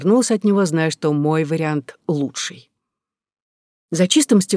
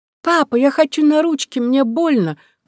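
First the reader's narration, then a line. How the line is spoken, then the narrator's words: Crying little girl. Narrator (Russian): кричала малышка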